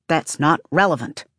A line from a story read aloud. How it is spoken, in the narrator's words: Tonki snaps